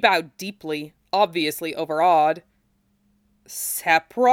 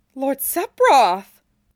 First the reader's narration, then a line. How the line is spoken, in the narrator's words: She exclaimed